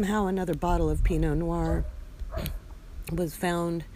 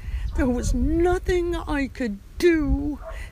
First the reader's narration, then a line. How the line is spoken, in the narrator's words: she yelled, sobbing at the apparition